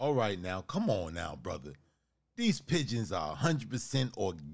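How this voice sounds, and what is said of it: Usual voice. Nothing is said of it.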